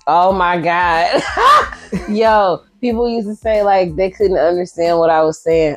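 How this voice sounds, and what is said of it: Southern Shreveport, Louisiana accent. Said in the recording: “I heard that accent. ... I had the thickest, Shreveportest ... country girl”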